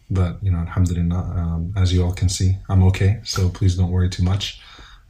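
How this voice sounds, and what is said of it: Lower, congested voice. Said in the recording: “my voice is a little lower now, as I'm just dealing with a little bit of a sore throat and some congestion”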